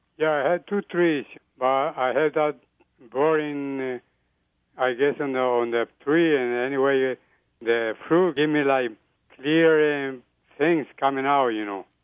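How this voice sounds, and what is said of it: Colombian Spanish accent in English. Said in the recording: “you have a unique accent, let's say ... I'm South American. I'm Colombian.”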